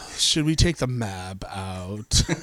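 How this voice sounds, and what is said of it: Solemn, glowering imitation of an actress. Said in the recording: “She plays like sort of solemn and glowery ... my impression of Michelle Williams playing Dora the Explorer”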